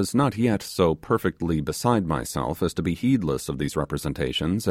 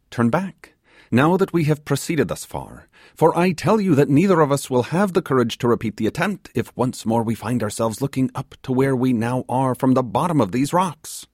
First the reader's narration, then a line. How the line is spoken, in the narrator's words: he exclaimed